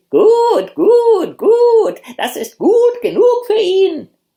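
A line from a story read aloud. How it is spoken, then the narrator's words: Hens screaming deafeningly. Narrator (German): die Hühner schrien so, dass die Ohren ihm beinahe abgefallen wären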